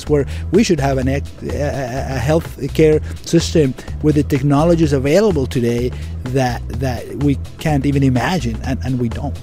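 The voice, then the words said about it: Venezuelan accent. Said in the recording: “I hear an accent, and you're not from Brooklyn or a Southie. Where's that accent from? ... I'm Venezuelan.”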